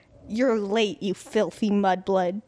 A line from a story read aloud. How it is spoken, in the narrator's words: Draco snarled through gritted teeth